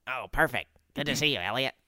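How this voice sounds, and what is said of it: Imitates another person's voice. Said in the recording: “Which is a very good Charlie impression.”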